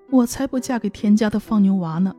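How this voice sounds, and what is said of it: Soft, quiet voice. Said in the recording (Chinese): “那女孩在窗外小声地说”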